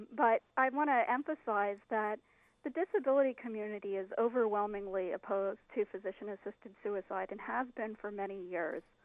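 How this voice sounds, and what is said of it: Slightly scratchy voice. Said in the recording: “my voice is a little bit scratchy today”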